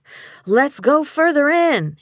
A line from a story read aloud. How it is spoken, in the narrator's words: he yelled over the slow roll of thunder